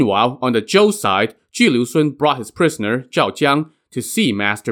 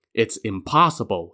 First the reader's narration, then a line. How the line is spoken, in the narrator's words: he said